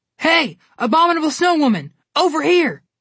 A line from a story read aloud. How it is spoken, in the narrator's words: Connor yelled at her